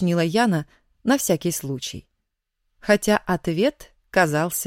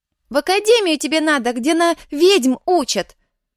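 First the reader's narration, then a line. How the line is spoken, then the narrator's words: Loud advice. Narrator (Russian): Громко посоветовала Фима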